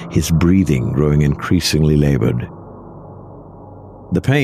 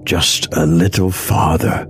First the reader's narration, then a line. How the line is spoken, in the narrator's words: Nick rasped